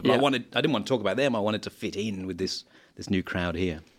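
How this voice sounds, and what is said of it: Posh Australian accent. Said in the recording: “your accent is a posh Australian ... you got that little bit of pomp”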